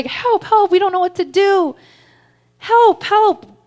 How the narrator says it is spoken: There was smoke that was filling the room, all of us screaming

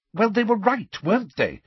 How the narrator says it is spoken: said Hermione impatiently

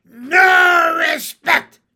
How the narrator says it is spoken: screamed

